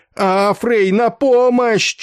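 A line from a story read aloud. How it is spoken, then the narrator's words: Near-tearful yell. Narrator (Russian): чуть не плача заорал он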